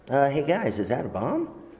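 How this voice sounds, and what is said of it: Anime character voice. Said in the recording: “my impersonation of every anime character I've ever played”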